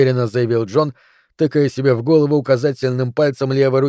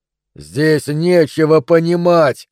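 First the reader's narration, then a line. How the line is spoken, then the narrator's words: Yelled again. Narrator (Russian): снова заорал Джон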